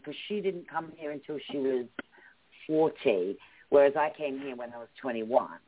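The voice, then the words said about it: British English accent. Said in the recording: “my mom has a stronger accent than me ... A stronger ... British ... My mom has a stronger British accent”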